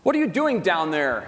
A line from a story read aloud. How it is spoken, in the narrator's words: yelled his father